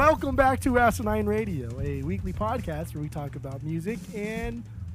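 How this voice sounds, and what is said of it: Usual voice. Nothing is said of it.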